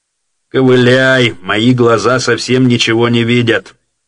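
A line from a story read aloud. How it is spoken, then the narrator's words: Mocking. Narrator (Russian): насмешливо говорил Тиунов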